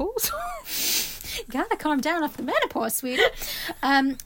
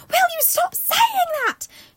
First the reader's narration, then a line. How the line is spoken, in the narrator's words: She screamed